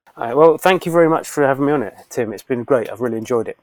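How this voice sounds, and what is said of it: A distinctive speaking accent. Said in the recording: “I love that accent.”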